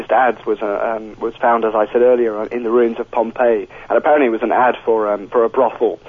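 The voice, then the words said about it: Breathless, congested voice with a cold. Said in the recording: “I'm out of breath because I'm suffering from this cold and I can feel my throat beginning to clam up”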